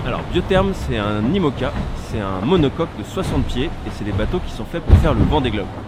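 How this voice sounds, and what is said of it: Slight Brest accent, swallowed words. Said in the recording (French): “je viens de Brest, alors j'ai un peu de mal à prononcer la plupart des mots. Je les bouffe. ... J'ai peut-être un petit accent”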